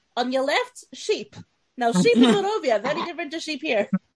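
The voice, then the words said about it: Borat-like accent. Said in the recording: “She did this accent all the way to Harrogate ... I can't do the accent, it's just Borat.”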